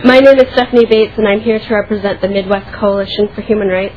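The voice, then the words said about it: Congested voice from a cold. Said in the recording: “I have a little cold”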